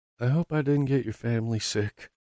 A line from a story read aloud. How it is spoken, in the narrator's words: says softly